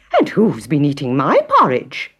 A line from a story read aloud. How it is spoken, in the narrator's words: exclaimed Mother Bear